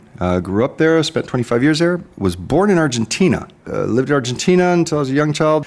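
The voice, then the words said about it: American accent. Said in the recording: “as you can hear from my accent, American”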